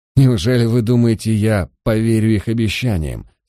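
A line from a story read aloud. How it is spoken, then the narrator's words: Asked after laughing. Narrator (Russian): спросил он, отсмеявшись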